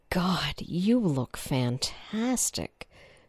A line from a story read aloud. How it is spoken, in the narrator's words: Sam said breathlessly